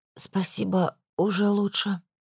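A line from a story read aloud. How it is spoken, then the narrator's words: Hoarse reply. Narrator (Russian): хрипло ответила я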